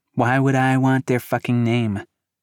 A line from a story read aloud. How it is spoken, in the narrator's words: Cavalon sighed